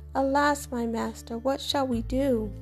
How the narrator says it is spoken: The servant flew into a state of panic and cried out to Elijah

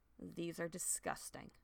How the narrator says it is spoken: she muttered

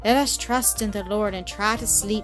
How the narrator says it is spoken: said a pious old lady who had laid herself calmly down

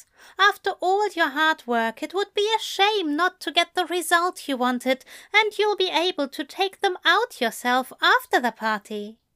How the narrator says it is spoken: he said brightly

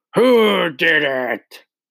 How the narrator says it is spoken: she roared

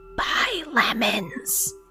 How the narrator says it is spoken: A sinister chill raked across my senses as it whispered

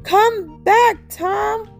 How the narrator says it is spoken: called out

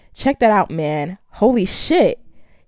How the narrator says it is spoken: exclaimed, letting out a high-pitched whistle

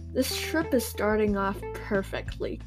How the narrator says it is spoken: Carolina laughed

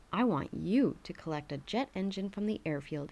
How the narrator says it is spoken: he said

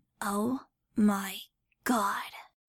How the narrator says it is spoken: Tuttle breathed

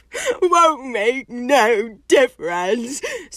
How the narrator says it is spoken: sobbed Hagrid

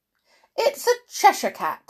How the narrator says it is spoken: snapped the Duchess

